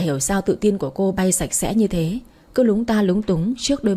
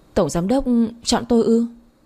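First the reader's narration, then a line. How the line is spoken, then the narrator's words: Startled stammer. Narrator (Vietnamese): Thiên Trang ngơ ngác, cô giật mình lắp bắp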